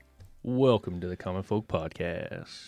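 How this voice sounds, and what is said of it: Announcer-style radio voice. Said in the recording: “a little bit of a radio voice. You fluctuated your voice.”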